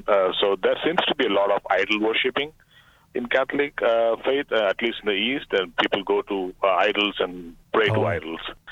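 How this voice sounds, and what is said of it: Eastern foreign accent. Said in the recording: “I come from the East, as you can probably say from my accent.”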